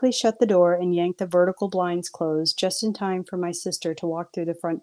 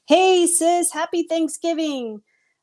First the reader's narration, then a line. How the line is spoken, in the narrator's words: I yelled a little too loudly